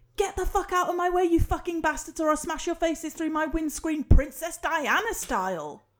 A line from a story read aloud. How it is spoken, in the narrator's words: the horn sort of shouts